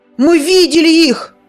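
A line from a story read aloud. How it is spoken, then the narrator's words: Excited shout. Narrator (Russian): Возбужденно выкрикнул Зар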